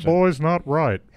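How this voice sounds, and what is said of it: Cartoon character voice impression. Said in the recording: “an incredible Hank Hill impersonation ... That is a good impersonation.”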